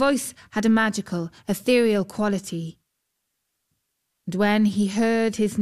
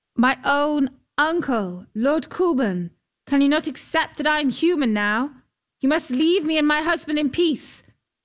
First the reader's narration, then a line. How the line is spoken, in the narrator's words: called out